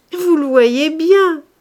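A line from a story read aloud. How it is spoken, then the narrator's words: Laughing. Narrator (French): répondit-elle en riant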